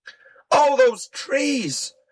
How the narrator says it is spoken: cried James White

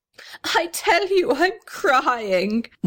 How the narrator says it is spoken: wailed the little red house

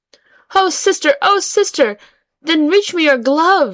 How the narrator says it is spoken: she cried, as she floated further away

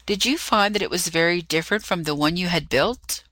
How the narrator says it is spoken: burst out laughing

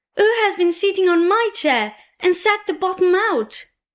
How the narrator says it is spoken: the teeny-tiny bear cried out in a teeny-tiny voice of anger

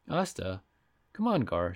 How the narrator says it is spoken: she said gently

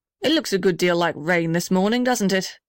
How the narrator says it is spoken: said the blue gum cheerfully

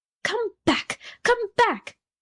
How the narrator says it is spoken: screamed the Rocket

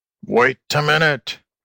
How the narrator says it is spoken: grunted the alligator

